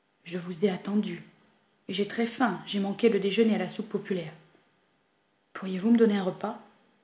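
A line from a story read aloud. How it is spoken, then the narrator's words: Grave tone. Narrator (French): Il dit d'un ton grave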